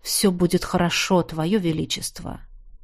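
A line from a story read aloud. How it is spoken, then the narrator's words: Quiet. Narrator (Russian): тихо сказал я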